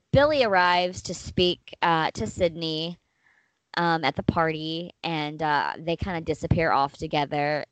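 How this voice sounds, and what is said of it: Hoarse, fading voice. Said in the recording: “I'm kind of losing my voice.”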